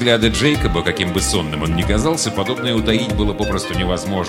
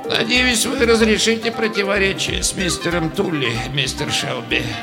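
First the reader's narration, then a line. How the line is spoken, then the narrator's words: Sympathetic, sighing. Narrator (Russian): сочувственно сказав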